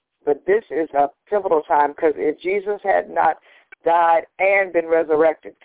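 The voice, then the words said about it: Slightly hoarse voice. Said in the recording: “excuse my voice if I sound a little hoarse”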